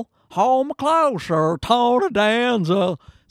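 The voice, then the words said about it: Sung impression with southern drawl. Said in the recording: “that weird southern drawl... It's like, what's happening? Is Cher singing this song? That's my impression”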